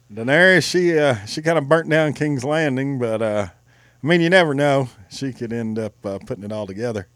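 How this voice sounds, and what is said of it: Impression of John Hodge. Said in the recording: “your John Hodge impression ... That's pretty good.”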